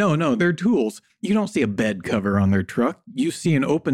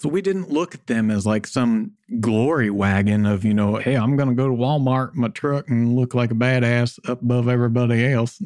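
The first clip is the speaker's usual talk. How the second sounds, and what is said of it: Put-on Southern accent. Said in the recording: “that's my Southern accent there ... That's pretty good. Pretty good. Right. Bang on there, man.”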